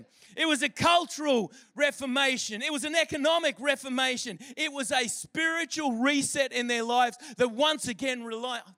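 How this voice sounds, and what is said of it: Excited shouting. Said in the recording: “Sorry, I'm shouting at you. I'm really excited.”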